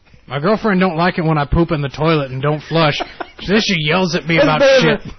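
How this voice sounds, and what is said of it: Impression of the other host. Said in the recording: “Do your impression of me ... That's better than last time ... your impression of me”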